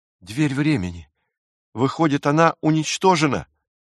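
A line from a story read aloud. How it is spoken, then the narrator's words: Exclaimed. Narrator (Russian): воскликнул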